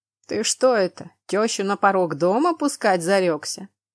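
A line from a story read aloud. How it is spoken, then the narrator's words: Laughing. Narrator (Russian): хохотнул проезжающий мимо воин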